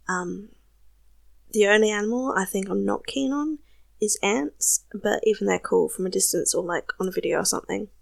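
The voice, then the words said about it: South Australian accent. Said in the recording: “Obviously, I'm Australian. My accent can be a little bit confusing sometimes because I'm from South Australia and our accent is slightly different.”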